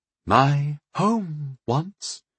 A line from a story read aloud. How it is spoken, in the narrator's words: said wistfully